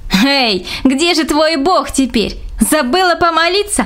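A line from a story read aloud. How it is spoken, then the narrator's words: Mocking laughter. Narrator (Russian): хохотала Аня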